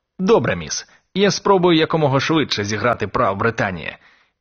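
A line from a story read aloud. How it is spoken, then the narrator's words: Cheerful. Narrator (Ukrainian): весело сказав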